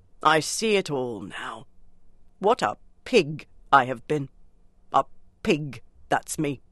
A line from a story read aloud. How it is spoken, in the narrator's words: he muttered gloomily